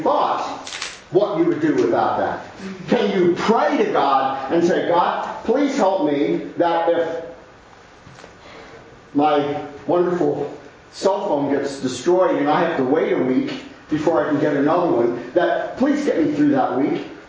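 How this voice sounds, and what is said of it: Sarcastic mocking delivery. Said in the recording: “I'm being sarcastic.”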